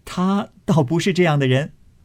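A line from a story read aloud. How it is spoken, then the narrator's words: Two women laughing. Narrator (Chinese): 宝钗、湘云都笑道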